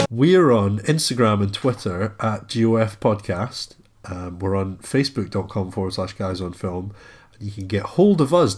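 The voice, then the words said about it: Nasal, congested voice from cold. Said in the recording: “I've got a bit of a cold today ... More nasal than normal.”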